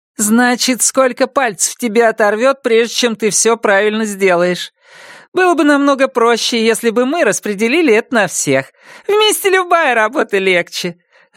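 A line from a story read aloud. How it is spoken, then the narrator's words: Joyful. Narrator (Russian): радостно заявила Мари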